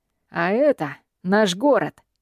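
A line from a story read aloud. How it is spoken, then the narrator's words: Rough, hoarse, menacing. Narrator (Russian): Отвечает Джилрой таким грубым и хриплым голосом, что в закрытом помещении он звучит угрожающе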